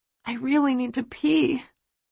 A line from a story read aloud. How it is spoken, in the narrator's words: I rasp